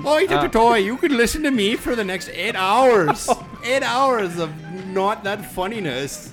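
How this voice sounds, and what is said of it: Put-on Irish accent drifting Indian. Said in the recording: “This is my Irish accent. ... That you just turned into an East Indian accent in the middle of your Irish accent.”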